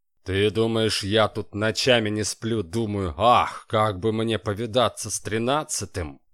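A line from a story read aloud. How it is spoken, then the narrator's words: Scornful snort. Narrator (Russian): фыркнул шеф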